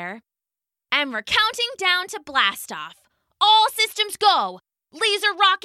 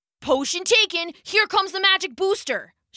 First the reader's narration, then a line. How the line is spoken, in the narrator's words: shouted Logan